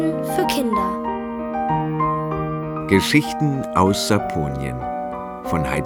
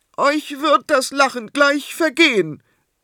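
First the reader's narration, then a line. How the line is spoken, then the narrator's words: Calling out. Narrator (German): rief entgegen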